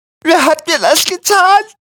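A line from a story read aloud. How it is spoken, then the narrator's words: Whimpered. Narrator (German): wimmerte Quilippi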